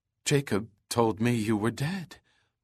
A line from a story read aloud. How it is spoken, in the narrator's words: she murmured in shock